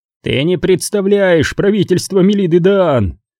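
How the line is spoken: Shout. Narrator (Russian): закричал Нильд

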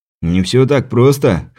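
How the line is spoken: Wry snort. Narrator (Russian): хмыкнул он

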